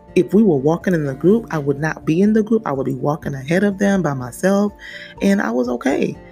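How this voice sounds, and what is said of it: Hoarse, strained voice. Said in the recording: “I'm so sorry, y'all, I don't know why I'm losing my voice”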